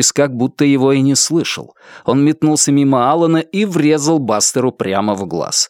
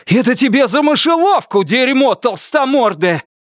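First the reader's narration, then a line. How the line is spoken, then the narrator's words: Shout. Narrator (Russian): крикнул Норрис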